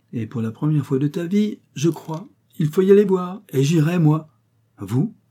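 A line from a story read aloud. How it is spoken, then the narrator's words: Surprised exclamation. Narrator (French): s'écria le notaire, surpris de cette vivacité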